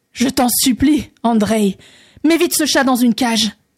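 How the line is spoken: Terrified exclamation. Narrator (French): s'écria le tsar, rempli d'épouvante

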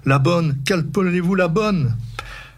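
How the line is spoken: Stammering. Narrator (French): balbutia Hector

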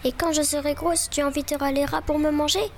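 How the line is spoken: Tearful shouting. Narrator (French): cria-t-elle les yeux pleins de larmes

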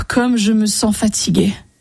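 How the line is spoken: Tired sigh. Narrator (French): soupira André

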